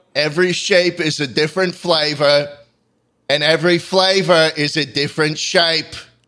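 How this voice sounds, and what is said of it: Slight accent. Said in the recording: “You have a little bit of an accent there.”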